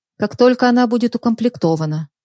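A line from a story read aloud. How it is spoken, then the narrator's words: Calm composed reply. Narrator (Russian): ответила спокойным голосом Даша, сумев взять себя в руки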